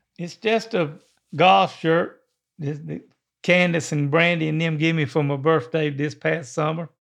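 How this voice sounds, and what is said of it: Southern drawl. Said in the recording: “that Southern drawl”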